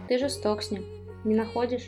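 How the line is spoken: Quiet. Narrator (Russian): тихо сказал Исин

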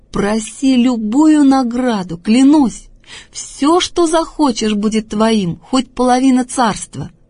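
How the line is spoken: Delighted exclamation. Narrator (Russian): восхищенный Антипа воскликнул

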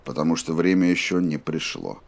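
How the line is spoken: Even voice. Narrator (Russian): ровным голосом ответил Роланд

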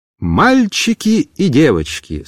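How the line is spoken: Plain. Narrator (Russian): сказала Раиса Ивановна

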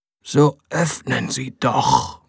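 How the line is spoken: Whisper. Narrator (German): wisperte er

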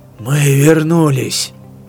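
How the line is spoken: Hoarse rasp. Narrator (Russian): прохрипел Миривитер

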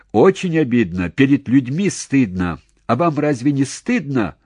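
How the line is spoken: Sudden pointed shout. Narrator (Russian): вдруг в упор крикнул он пограничнику

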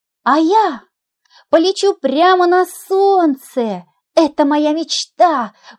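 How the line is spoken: Exclaiming. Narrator (Russian): воскликнула другая горошина

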